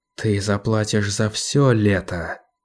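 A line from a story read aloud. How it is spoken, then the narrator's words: Whisper. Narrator (Russian): прошептала она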